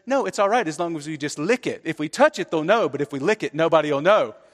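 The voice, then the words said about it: Child's voice with English accent. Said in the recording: “in his little English accent, says”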